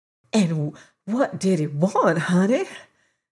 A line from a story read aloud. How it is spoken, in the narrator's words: asked the old lady in an awestruck whisper